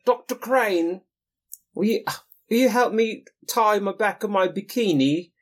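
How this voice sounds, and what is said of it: British or Scottish TV character impression. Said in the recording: “Oh, is she British? ... I think she's Scottish, maybe ... exactly like my impression”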